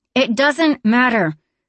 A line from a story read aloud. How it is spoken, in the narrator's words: Dima's voice rose to a shout